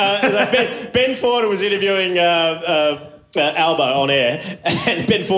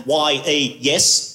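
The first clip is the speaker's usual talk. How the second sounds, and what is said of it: Impression of Anthony Albanese. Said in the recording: “a good impression”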